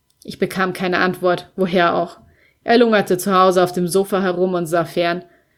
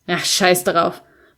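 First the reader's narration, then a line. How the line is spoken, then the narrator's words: Dismissive grumble. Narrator (German): brummte ich wegwerfend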